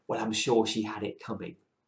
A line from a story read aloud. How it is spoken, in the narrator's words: the ambassador leant over and whispered